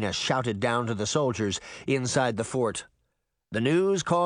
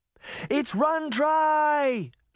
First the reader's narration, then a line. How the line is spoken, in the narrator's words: she shouted